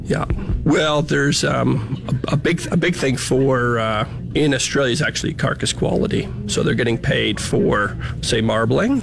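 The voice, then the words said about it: Canadian Ontario accent. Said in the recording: “I'm from Canada originally, so that's the accents from Ontario”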